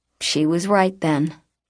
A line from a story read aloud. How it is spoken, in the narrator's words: the boy said